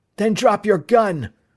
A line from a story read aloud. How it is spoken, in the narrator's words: Bud snapped